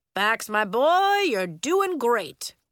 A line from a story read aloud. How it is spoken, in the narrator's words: Coach exclaimed